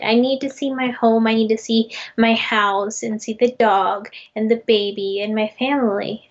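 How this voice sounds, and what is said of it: Strong American accent. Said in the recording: “you're 100% American. Like, you have the most American accent I have ever heard.”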